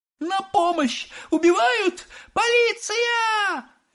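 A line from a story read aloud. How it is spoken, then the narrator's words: Shrieking. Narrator (Russian): визжала миссис Глуп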